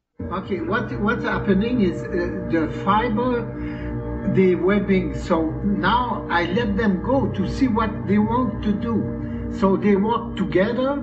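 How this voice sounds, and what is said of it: Slight French accent. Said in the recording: “this fellow, I think, is French. So he's got a bit of an accent, but I think you'll understand him.”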